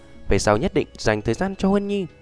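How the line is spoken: Gentle comforting voice. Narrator (Vietnamese): ôn nhu an ủi nói

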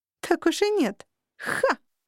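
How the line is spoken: Mocking snort. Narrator (Russian): фыркнула насмешливо

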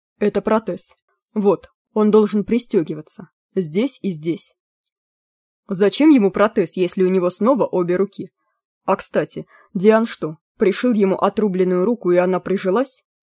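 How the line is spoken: Plain. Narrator (Russian): спросил Левелес

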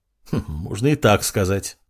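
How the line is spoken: Smirking snort. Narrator (Russian): хмыкнул пиромант

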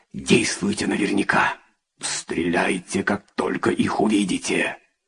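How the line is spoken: Whispered. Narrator (Russian): Акоко прошептал

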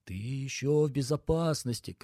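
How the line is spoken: Shouting inner voice. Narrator (Russian): кричал рассудок

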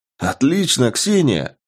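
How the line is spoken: Exclaiming. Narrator (Russian): воскликнул Андрей

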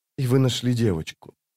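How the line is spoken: Quiet. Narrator (Russian): тихо проговорила она

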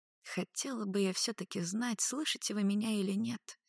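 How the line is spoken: Quiet woman's voice. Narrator (Russian): тихо сказала дознавательница

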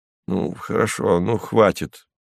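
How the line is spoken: Grumbling with full mouth. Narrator (Russian): проворчал Кузьма Иванович сквозь салат

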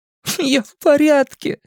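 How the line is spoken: Loud through tears. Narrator (Russian): громко ответил Стэн сквозь слезы

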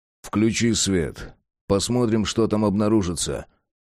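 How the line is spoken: Calm command. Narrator (Russian): спокойно велел Джек

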